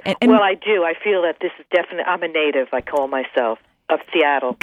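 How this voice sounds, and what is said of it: Brooklyn accent. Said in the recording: “I still have my Brooklyn accent.”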